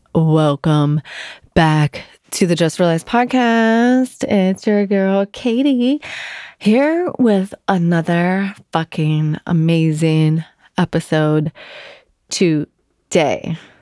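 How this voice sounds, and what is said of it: Voice sounds sick. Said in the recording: “I'm sick. You could probably hear it in my voice”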